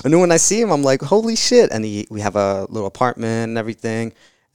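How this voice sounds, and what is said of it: Slight New Jersey or New York accent. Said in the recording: “I hear a little bit of that in your voice... That sounded like a Jersey or New York accent.”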